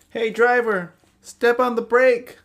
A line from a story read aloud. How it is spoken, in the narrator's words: yelled Turtle Titan